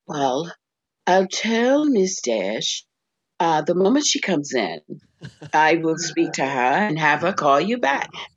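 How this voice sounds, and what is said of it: Put-on classy character voice. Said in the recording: “That's Rita's voice. ... classy. ... that's a fake voice.”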